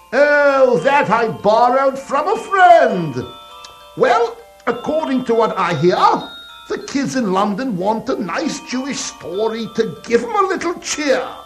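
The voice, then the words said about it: Put-on British accent. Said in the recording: “where did you get that British accent?”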